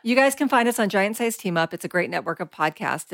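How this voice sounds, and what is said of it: Very fast excited speech. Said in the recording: “I'm talking so fast”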